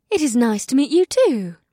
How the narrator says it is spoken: Ibsith replied in a sweet tone

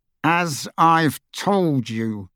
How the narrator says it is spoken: he said through gritted teeth

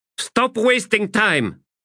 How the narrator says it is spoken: she snapped

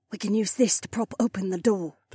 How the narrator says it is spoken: the soldier whispered

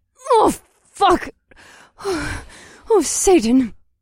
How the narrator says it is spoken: Della panted as she got her breath back

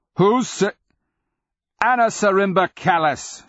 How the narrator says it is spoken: she cried in scathing dismissal

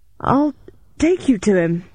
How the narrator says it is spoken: I gasped, trying to give myself some breathing space

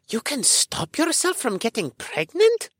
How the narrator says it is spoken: Eric gasped

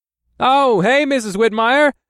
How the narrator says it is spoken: I said loudly

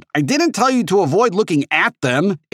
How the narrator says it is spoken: H shouted

